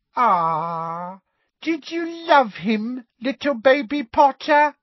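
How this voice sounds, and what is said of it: Mocking baby voice. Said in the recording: “in her mock baby voice”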